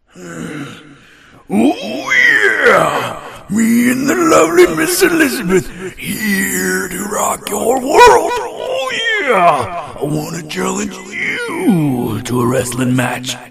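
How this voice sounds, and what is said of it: Gravelly pro-wrestler impression. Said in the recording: “I would put on my best Randy Macho Man Savage voice ... do the voice”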